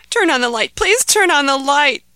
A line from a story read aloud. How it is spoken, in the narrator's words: begged Ahmed